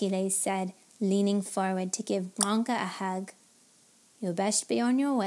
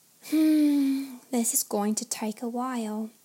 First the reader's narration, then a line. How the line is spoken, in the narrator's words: Henny sighed